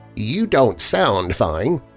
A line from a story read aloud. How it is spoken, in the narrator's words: she said